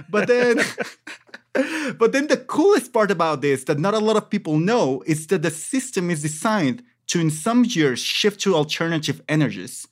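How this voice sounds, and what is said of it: Speaks with an accent. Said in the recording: “you know my accent.”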